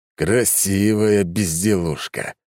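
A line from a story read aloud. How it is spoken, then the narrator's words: Angry. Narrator (Russian): произнес зло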